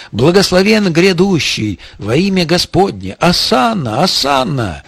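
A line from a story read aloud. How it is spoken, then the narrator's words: Crowd shouting. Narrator (Russian): кричали ему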